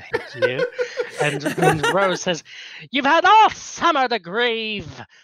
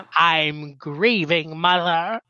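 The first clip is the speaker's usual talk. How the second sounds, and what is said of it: Impression of Amy. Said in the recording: “that's a good impression”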